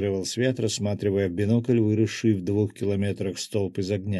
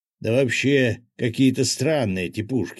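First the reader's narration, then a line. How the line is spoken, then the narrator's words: Grumbled. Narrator (Russian): проворчал рыбак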